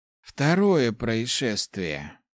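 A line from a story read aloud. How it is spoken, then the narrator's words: Sigh. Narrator (Russian): вздохнул Хорд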